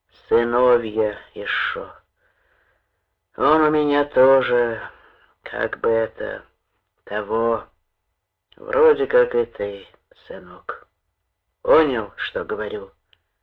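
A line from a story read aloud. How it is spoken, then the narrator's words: Gloomy. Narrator (Russian): Он сообщил мрачно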